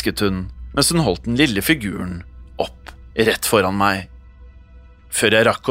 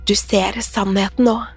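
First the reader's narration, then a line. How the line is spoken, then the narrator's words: Hissed. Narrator (Norwegian): hveste kvinnen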